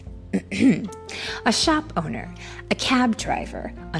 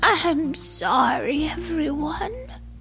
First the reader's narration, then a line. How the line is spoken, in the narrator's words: Amu sighed